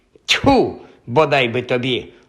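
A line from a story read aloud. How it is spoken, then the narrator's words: Exclaimed. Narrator (Ukrainian): вигукнула Софі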